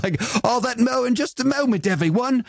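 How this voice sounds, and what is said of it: Put-on British accent. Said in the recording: “I said that in a British accent.”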